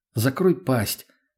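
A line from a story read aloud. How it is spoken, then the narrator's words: Completely calm. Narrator (Russian): снова совершенно спокойно отреагировала Лена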